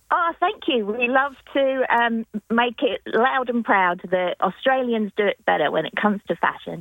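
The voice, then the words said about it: English accent. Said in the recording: “I may have an English accent”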